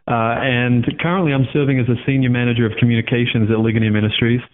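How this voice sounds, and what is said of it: Australian accent. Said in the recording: “As you can tell from my accent, ... I'm originally from Australia”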